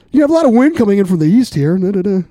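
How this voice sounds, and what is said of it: Newscaster-style weather report voice. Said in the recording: “put on my best newscaster voice ... like a local weather reporter”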